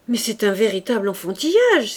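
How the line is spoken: Prince exclaiming. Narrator (French): s'écria le prince

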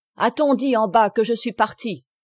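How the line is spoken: Exclaiming priest. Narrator (French): s'écria l'abbé

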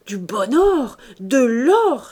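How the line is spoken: Exclaiming. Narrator (French): s'écria-t-il

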